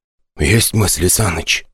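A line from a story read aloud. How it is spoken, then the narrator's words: Whispered. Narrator (Russian): шепнул мне Казаков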